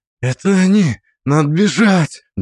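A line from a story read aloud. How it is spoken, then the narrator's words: Trembling young man's voice. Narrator (Russian): дрожащим голосом произносит парень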